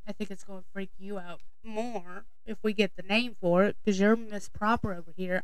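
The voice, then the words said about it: Southern US accent, Arkansas-Tennessee. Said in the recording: “our part of our accent came from the child of Arkansas, and then for the last 23 years we've been in the state of Tennessee... is it a Tennessee accent? Is it still an Arkansas accent? Is it a mix of the two?”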